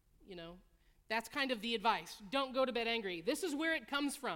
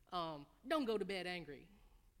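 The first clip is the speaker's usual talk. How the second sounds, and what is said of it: Southern US accent. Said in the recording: “they'll say with a southern accent”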